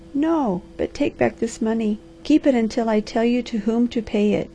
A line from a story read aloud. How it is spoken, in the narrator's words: she cried